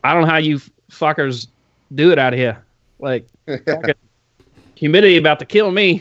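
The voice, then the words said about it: Deliberately bad East Coast accent. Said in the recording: “I'm going to try a really shitty East Coast accent because he's got a cool East Coast accent ... That was like Bugsy. He's shooting out a Bugsy accent.”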